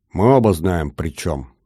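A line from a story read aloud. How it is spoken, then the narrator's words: Angry words through gritted teeth. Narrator (Russian): зло процедил собеседник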